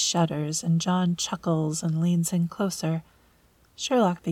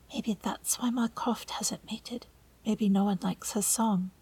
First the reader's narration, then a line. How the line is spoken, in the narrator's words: John leans into Sherlock and whispers